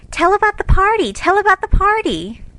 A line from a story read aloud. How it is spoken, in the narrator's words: two sleepy but eager voices cried out